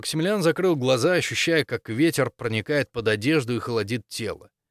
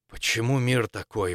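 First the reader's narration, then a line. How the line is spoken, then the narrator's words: Breathed out. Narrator (Russian): выдохнул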